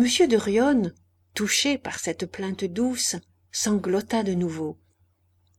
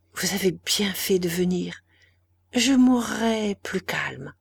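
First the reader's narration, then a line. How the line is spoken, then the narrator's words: Faint breathy whisper. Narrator (French): dit-elle, et ses paroles n'étaient qu'un souffle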